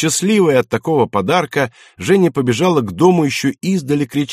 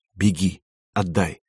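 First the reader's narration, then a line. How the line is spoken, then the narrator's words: Quiet. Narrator (Russian): тихо сказал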